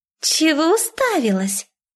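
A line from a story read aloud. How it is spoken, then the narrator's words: Squeak. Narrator (Russian): пискнула Мадлен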